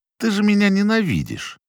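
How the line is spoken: Confused but sharp. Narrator (Russian): По-прежнему растерянно, но уже с резкой интонацией произнес Гордос

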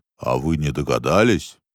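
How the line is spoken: Deep bass voice. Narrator (Russian): пробасил Верти

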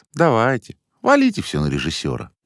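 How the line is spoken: Grumbled under breath. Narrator (Russian): проворчал он в полголоса

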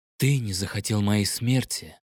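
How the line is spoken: Quiet. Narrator (Russian): тихо ответил Эль

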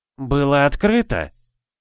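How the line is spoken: Hesitant, uncertain. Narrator (Russian): начал Ладьен неуверенно

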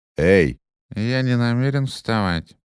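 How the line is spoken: Nasal, half-asleep voice. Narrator (Russian): прогнусавил тот, еще не совсем вынырнув из сна

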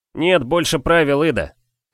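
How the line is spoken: Shouted. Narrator (Russian): крикнул Ри

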